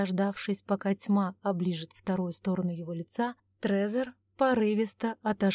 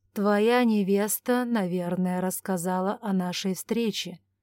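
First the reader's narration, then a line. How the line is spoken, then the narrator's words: Muffled, after hesitation. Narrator (Russian): наконец глухо заговорил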